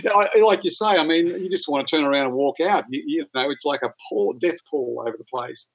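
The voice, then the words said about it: Australian accent. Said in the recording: “my Aussie accent ... Australian accents”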